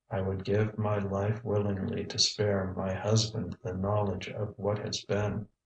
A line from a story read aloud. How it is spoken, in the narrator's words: said Lady Ireton in a low, monotonous voice